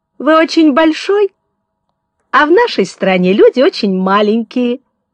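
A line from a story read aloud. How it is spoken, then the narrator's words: Laughing magpie explaining. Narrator (Russian): смеясь, объяснила сорока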